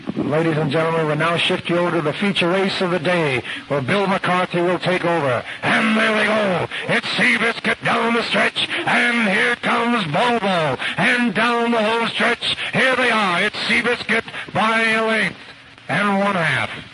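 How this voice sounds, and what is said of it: Horse race announcer impersonation. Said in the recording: “that was a very fine impersonation”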